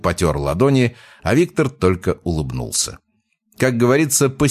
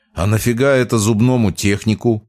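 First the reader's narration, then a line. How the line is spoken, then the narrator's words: Scoffing snort. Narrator (Russian): хмыкнул Михаил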